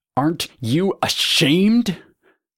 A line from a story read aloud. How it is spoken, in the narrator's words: Legend asked, his voice rising